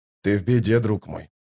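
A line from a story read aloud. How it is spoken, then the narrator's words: Quiet. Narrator (Russian): тихо проговорил Остряк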